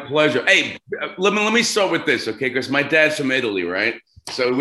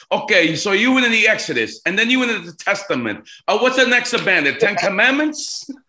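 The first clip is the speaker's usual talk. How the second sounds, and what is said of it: Exaggerated Italian accent. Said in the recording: “with the big Italian accent”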